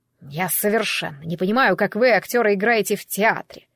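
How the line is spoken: Contemptuous snort. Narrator (Russian): продолжал он, презрительно фыркнув

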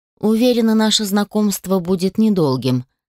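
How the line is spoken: Plain. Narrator (Russian): сказала леди Сомуль

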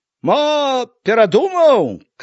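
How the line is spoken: Woman shouting from below. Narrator (Belarusian): крыкнула знізу нейкая жанчына

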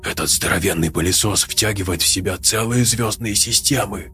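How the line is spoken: Spellbound whisper. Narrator (Russian): зачарованно прошептал Фабрис

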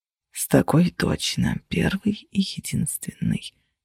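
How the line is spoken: Whisper in ear. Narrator (Russian): прошептали мне на ухо

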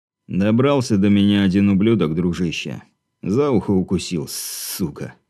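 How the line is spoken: Snorting reply. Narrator (Russian): хмыкнув, ответил

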